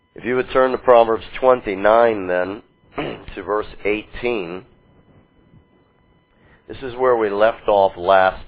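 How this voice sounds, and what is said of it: Voice affected by illness. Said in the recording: “Apologize for my voice. ... I was very sick yesterday, and same is the case today. ... not the sound of it”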